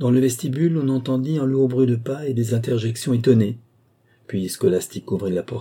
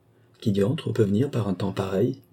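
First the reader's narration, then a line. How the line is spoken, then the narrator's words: Murmured. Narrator (French): murmura mon père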